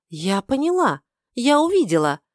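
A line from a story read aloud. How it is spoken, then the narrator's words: Sudden joy. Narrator (Russian): вдруг радостно произнесла Лила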